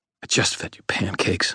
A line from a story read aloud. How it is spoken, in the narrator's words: I muttered